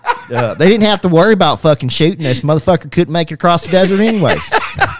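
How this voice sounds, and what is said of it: Exaggerated regional American accent. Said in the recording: “That's your fucking accent. ... Yeah. I can make it come out pretty well.”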